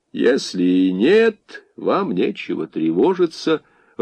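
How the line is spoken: Even, smiling, soothing. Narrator (Russian): ровным тоном с улыбкой попытался успокоить хозяйку монастыря красный командир

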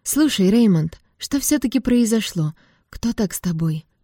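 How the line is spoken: Soft question. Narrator (Russian): мягко спросила я

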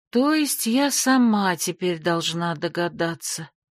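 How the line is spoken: Upset, drawn-out. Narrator (Russian): Расстроенно протянула я

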